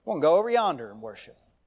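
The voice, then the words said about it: Put-on Southern drawl. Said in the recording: “a little bit of a southern drawl”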